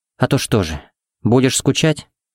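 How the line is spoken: Good-natured purr. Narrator (Russian): Удивительно добродушно промурлыкала Пепси

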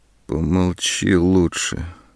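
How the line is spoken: Muffled interruption. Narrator (Russian): глухо перебила она

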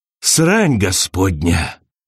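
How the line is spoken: Exhaled. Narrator (Russian): выдохнул он

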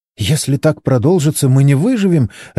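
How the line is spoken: Babbling. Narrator (Russian): лепетала Моника

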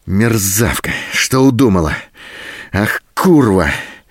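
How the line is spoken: Hoarse fury. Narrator (Russian): В то остывающем, то снова вспыхивающем бешенстве хрипел Голубин

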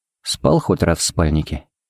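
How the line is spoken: Quiet question. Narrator (Russian): поинтересовался Харри негромко

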